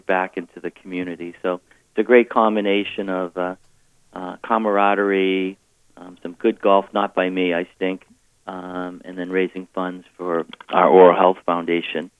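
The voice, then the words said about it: Quieter, softer tone than usual. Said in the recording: “using his semi-golf voice ... He sounds a little quieter than normal today. ... He's a little softer, a softer tone than usual.”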